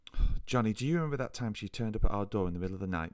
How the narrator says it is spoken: Mum sighed

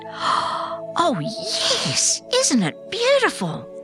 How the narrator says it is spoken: I exclaimed

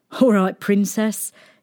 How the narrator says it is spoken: laughed

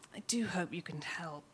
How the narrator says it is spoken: she sighs

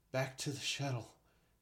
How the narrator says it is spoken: Chek said breathlessly

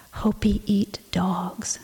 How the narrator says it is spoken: she whispered

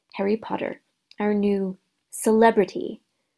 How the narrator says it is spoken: he said softly

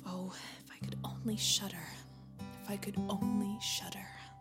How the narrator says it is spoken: The youth ... began to murmur to himself

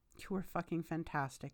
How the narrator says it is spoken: says

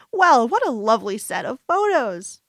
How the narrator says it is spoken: my grandmother exclaims, beaming at me

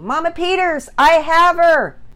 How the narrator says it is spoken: He nearly shouted into his walkie-talkie

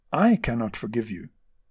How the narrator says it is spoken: kindly and after a while replied

